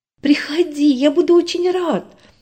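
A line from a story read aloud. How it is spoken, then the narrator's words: Excited reply. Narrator (Russian): взволнованно ответил Миша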